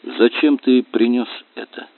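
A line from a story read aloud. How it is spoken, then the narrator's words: Dry question. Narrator (Russian): Она сухо спросила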